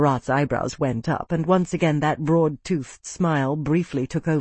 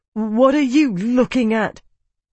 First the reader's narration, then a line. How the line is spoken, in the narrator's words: demanded, his voice shaking